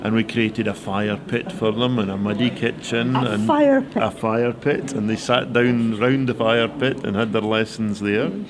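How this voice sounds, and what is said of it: Hawick Scottish Borders accent. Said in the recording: “I'm trying to place your accent... I'm a hoik man... Yiffy hoik”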